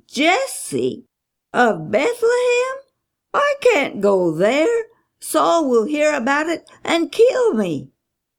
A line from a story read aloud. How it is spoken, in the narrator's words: Samuel exclaimed